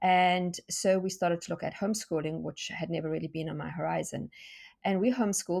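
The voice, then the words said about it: South African accent. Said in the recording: “you can hear from my accent that I am not American. In fact, I'm South African”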